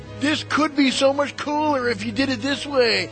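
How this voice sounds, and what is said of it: Mocking voice of annoying test-server player. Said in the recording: “I was doing my impersonation of, you know, test server bastard. That's going to be my new character.”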